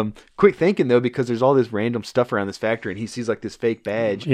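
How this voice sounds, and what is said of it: Usual voice. Nothing is said of it.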